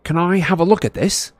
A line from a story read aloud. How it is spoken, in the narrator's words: Harry asked Luna eagerly